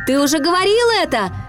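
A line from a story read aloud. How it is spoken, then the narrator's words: Laughing reply. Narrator (Russian): рассмеялся в ответ Питер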